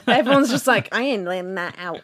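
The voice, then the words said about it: Put-on American accent. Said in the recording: “That's an American accent, by the way.”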